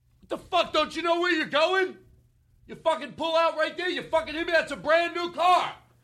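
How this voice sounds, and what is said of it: Angry yelling. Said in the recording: “he's yelling that at you”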